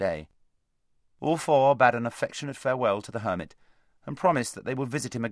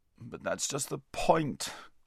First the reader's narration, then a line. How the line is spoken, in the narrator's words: groaned Bree